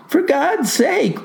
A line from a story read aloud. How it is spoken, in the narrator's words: pleaded the lad